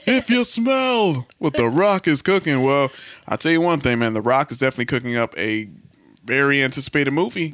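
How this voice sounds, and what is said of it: Imitates another person's voice. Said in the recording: “my Rock impression”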